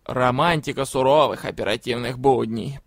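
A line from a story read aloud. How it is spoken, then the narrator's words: Displeased grumble. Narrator (Russian): пробурчал недовольный Жловис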